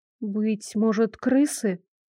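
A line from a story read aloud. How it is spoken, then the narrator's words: Uncertain suggestion. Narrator (Russian): неуверенно предположила я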